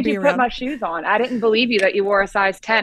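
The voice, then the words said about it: Mild Southern American twang. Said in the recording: “she has a bit of a southern accent like I do ... some twang”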